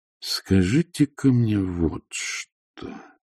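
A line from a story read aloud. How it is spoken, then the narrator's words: Slow. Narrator (Russian): медленно произнес Патриций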